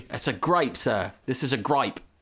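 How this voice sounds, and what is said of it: Put-on accent. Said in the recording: “That's my accent for the day.”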